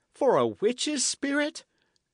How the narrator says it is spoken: Dick cried

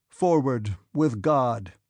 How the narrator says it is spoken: said Bagration, in a resolute, sonorous voice

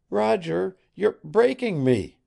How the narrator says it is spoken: she cried, gasping for her breath

